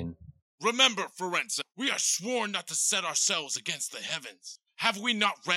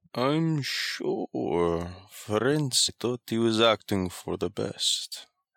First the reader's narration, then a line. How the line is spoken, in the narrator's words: he said in his gloomy voice